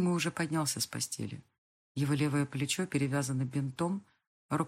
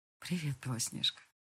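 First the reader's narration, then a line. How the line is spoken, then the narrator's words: Barely audible. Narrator (Russian): Едва слышно произносит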